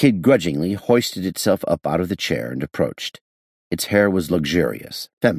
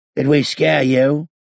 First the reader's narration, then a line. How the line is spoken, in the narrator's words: the creature inquired hoarsely